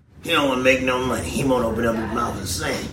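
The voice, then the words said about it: Imitates another person's voice. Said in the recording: “That's a better impersonation.”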